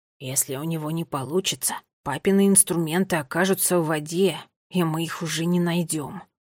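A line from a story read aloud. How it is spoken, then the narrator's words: Hoarse whisper. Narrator (Russian): хриплый шепот Неллио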